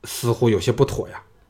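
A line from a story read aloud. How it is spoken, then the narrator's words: Low, grave. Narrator (Chinese): 另一个人沉声说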